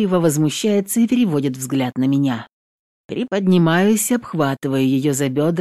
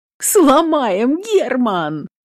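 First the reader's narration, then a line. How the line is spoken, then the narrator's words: Laughing. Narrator (Russian): начинает хохотать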